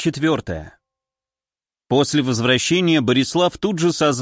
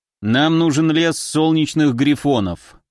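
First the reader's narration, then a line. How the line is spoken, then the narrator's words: Gloomy. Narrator (Russian): мрачно произнес третий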